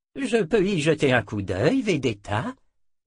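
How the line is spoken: Plain. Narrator (French): demanda-t-il

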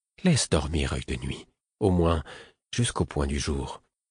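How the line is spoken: Madman speaking half-voiced. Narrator (French): dit le fou à mi-voix

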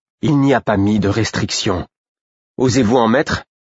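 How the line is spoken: Insidious tone. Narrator (French): fit-il d'un ton insidieux

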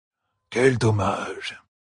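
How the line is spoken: Sighing. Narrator (French): soupira Noal

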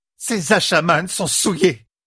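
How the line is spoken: Roaring. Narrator (French): rugit Saroya, la réserve légendaire de l'Aja Blanc jetée aux orties

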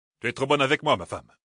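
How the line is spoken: Curt reply. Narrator (French): répondit sèchement Maître Annan

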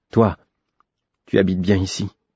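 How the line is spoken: Sullen remark. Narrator (French): observai-je d'un ton maussade

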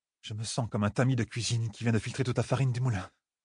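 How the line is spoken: Murmured. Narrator (French): murmura

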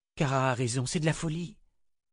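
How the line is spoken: Whispered. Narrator (French): souffla Kalan

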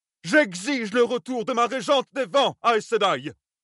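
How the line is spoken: Roaring. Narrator (French): rugit Arryn Dyn Togara

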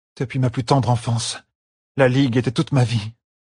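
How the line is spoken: Breathed softly. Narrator (French): souffla Aludra

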